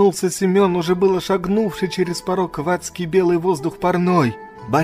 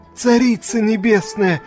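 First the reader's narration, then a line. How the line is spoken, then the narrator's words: Feigned frightened peasant exclamation. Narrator (Russian): С неподдельно притворным крестьянским испугом, будто это он, и только он нанес князю рану, воскликнул Семен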